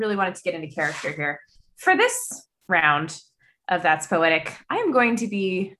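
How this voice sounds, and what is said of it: Usual voice. Nothing is said of it.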